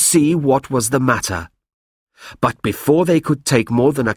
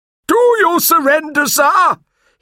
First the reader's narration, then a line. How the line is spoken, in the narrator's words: bellowed